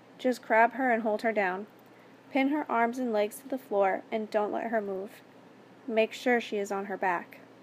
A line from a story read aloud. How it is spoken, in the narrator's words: In a remarkably calm voice